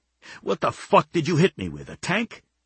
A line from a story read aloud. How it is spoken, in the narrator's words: spat blood